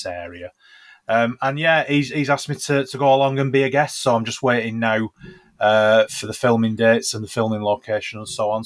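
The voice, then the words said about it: Rough Lancashire accent. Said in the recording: “my very, very rough Lancashire accent”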